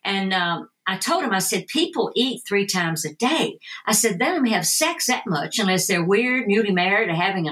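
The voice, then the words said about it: Tennessee Southern American accent. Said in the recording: “my accent, you know, being from Tennessee”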